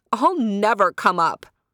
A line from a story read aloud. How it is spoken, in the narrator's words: cried Sapana